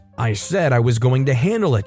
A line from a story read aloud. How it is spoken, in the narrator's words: she exclaimed